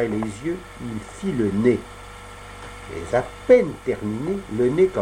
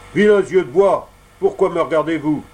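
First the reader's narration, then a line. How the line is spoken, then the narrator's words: Stern exclamation. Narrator (French): Il s'écria avec un accent sévère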